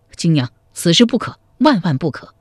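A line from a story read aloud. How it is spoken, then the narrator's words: Hurried urgent protest. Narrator (Chinese): 赵匡胤急忙摆手说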